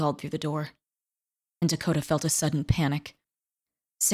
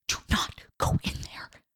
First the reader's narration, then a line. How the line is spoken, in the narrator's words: Dakota whispered